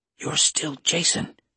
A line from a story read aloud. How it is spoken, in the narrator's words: Pitching her voice back to a whisper, she said